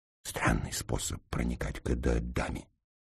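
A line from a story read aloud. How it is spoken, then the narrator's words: Whisper. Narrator (Russian): прошептал Ираст Петрович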